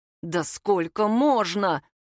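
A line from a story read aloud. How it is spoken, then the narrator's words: Furious, through teeth. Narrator (Russian): сквозь зубы яростно процедил папа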